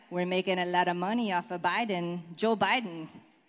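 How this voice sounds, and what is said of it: Bad put-on Mexican accent. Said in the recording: “my really bad Mexican accent”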